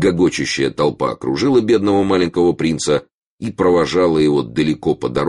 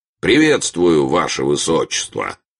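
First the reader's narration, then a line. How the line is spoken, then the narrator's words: Angry addition. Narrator (Russian): прибавил сердито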